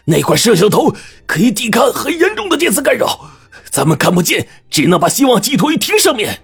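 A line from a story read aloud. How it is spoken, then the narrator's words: Roaring. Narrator (Chinese): 徐队大吼着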